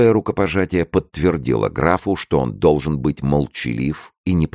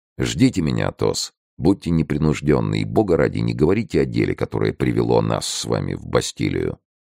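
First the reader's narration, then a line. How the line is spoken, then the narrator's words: Barely audible. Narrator (Russian): едва слышно добавил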